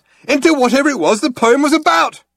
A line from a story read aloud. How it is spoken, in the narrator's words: he yelled